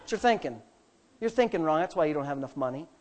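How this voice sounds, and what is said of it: Put-on southern accent. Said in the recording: “in her little southern accent that she has”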